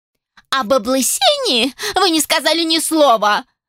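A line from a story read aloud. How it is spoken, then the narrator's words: Shrieking elf woman. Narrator (Russian): завизжала эльфийка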